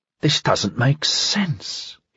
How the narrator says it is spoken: he said, mouthing the words in something more than a whisper

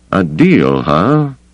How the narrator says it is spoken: He asked lazily

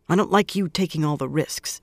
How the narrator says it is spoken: she muttered

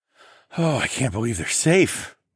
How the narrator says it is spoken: I sighed heavily

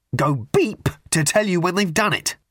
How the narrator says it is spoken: added savagely

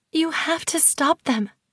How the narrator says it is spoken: I whispered back

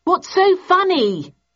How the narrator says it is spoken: I yelled

